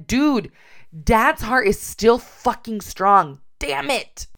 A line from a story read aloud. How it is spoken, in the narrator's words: in a very angry voice said